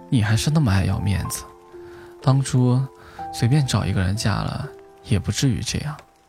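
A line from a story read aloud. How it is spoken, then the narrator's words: Sighing. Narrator (Chinese): 龙 忍不住叹了口气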